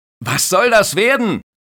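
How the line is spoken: Lifeguard shouting. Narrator (German): schreit der Bademeister

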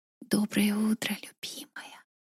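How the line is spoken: Intimate whisper. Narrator (Russian): Прошептал мне прямо в губы

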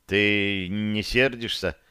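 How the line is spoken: Quiet question. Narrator (Russian): тихо задал он вопрос

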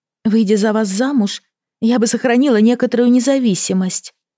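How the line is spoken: Sighing. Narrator (Russian): вздохнула она

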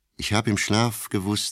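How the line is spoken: Plain. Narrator (German): sagte

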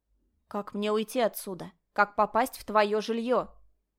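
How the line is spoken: Commanding inquiry. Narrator (Russian): приказным тоном поинтересовалась принцесса

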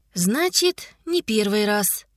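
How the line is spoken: Sigh. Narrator (Russian): вздохнула Котя

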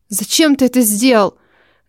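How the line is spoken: Hissing. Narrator (Russian): Зашипела

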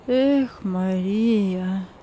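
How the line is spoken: Heavy sigh. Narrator (Russian): Тяжело вздохнув, сказал он

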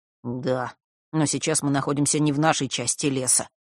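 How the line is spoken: Grumbling. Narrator (Russian): пробурчал Фэш

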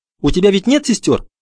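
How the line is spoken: Hurried question. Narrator (Russian): торопливо спросил Бруно

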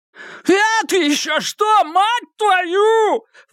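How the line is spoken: Shrill falsetto shriek. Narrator (Russian): взвизгнул Бандан, переходя на пронзительный фальцет

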